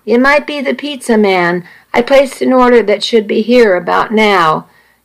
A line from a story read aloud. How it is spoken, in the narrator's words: Nikki called out